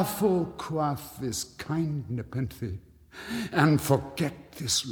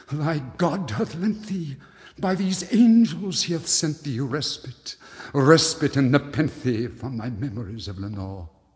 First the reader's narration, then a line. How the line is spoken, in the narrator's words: cried